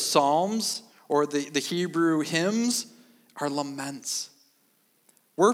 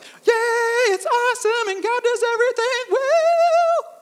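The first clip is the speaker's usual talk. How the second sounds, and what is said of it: High-pitched falsetto voice. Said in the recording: “I cannot believe I was able to hit that falsetto... it's like my inner Michael Jackson just kind of just coming out”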